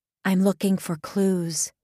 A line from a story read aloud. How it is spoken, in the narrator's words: said softly